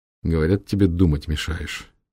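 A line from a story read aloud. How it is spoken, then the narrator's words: Mutter. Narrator (Russian): пробормотал Норт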